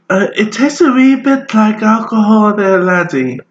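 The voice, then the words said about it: Put-on accent. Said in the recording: “Please stop that accent. ... That's offensive.”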